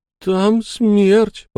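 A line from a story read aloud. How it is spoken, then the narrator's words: Whimpered. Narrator (Russian): проскулил Энакин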